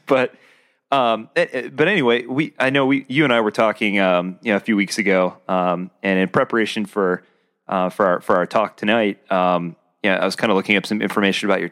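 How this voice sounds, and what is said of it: Deep, husky voice from a cold. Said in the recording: “I'm still getting over a cold from last week... Makes your radio voice sound great, though... It drops another octave... you got to keep clearing your throat”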